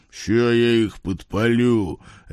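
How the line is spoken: Serpent's bark. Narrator (Russian): рявкнул змей

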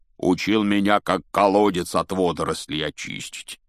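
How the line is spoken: Grumbling. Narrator (Russian): проворчал Хагрид

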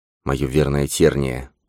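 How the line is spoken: Mutter. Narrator (Russian): пробормотал Грейлин

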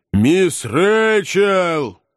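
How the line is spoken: Shouted into ear. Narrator (Russian): Жирный парень прокричал в ухо старой леди

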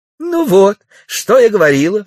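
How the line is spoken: Exclaiming. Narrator (Russian): воскликнула милиция

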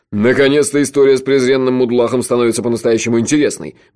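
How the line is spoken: Cheerful brisk speech. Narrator (Russian): бодро говорил он

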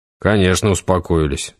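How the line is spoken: Grumbling. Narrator (Russian): буркнул Юра

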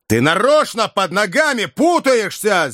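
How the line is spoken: Enraged shout. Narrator (Russian): зверея закричал Иван

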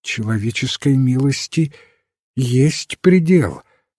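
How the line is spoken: Trembling voice. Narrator (Russian): сказала дрожащим голосом леди Аутрем

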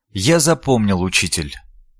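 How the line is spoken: Quiet reply. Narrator (Russian): тихо ответил Ламберт

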